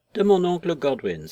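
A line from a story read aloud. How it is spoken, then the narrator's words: Exclaiming. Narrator (French): s'écria-t-il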